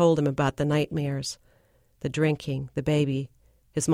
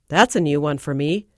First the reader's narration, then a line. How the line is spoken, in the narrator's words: Don chuckled